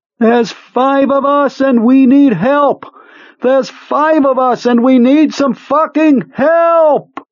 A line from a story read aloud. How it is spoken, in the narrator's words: Beaver Clarendon was still screaming